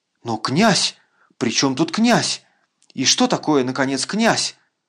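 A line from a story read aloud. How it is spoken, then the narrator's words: Indignant mutter. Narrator (Russian): Пробормотал генерал, почти уже не в силах сдержать свое негодование на такой обидный даже авторитет князя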